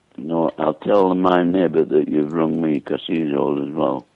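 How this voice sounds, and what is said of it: Strong, hard-to-understand accent. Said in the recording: “I can't understand your accent.”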